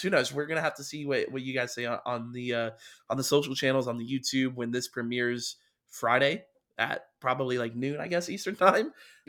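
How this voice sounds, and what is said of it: Hoarse, nearly lost voice. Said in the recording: “My voice is gone. ... voice is gone. ... voice is almost gone.”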